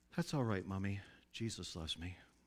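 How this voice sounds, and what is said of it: Kindly child's voice. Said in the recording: “saying in a kindly voice”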